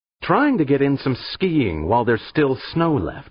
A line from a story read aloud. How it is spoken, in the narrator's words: she snapped, equally irked